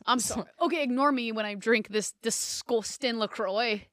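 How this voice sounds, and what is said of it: Put-on Scouse accent. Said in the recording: “That was an amazing accent ... there's some scouse”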